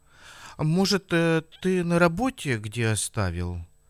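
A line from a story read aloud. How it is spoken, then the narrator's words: Timid suggestion. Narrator (Russian): робко предположила Розалина Павловна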